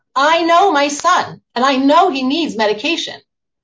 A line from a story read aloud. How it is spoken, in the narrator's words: Matan sits up straight and forcefully says to me in an even stronger voice